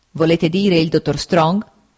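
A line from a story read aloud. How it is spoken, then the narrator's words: Stern interruption. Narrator (Italian): lo interruppe il signor Wickfield in tono severo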